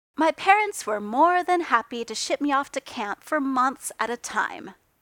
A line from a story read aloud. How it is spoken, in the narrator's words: Tony said cheerfully